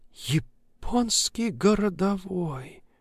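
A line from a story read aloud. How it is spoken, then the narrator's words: Crushed, dejected mutter. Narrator (Russian): убитым голосом пробормотала коллега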